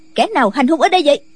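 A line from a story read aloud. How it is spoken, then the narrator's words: Woman's sharp shout. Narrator (Vietnamese): có người phụ nữ quát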